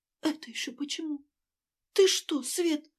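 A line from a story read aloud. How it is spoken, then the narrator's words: Frightened babbling. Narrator (Russian): испуганно пролепетала Ася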